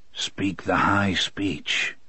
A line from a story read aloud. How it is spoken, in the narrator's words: he said softly